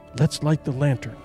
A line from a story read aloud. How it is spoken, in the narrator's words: she whispered